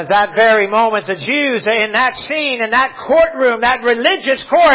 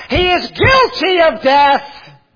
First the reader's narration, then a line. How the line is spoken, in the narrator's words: they all shouted out